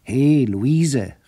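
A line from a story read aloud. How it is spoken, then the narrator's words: Calling out. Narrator (German): rief er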